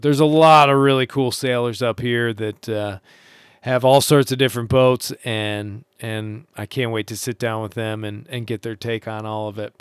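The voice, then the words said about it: Hoarse voice. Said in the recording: “I can actually feel my voice going hoarse right now.”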